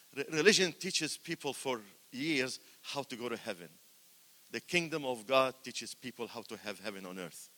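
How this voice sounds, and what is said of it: Speaks English with a foreign accent. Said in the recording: “especially from somebody with an accent”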